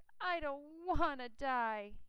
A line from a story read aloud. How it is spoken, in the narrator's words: he moaned